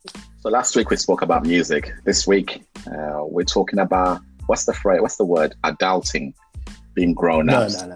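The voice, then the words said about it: Zimbabwean accent. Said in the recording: “You see the way your Zimbabwe accent just comes up. Adulting.”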